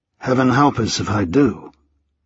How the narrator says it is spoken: Gregory said under his breath

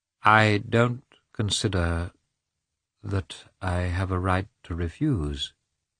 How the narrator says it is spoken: he said timidly

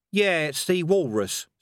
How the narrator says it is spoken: said Cohen evenly

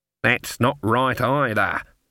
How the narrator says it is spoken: said Granny under her breath

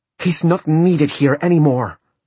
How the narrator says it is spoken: she cried in both English and Spanish

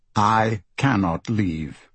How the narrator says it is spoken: Marco says, his voice calm and controlled

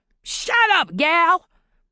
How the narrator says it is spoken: the man roared

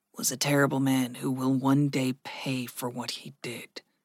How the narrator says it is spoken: Gregory said softly

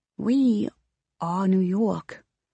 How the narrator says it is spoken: she murmurs

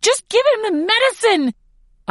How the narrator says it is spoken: scream

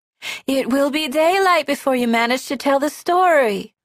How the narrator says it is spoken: she whines

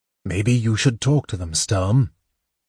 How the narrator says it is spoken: Tanis said softly

